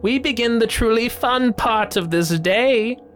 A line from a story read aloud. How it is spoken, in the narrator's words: elder bellowed